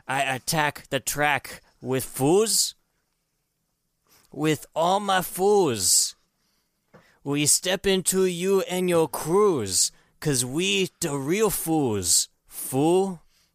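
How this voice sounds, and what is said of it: Put-on accent drifting between accents. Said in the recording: “Are you still doing a Mexican thing? ... It's kind of sounding Asian now. ... I don't know how to keep doing the same accent, so I go into another accent.”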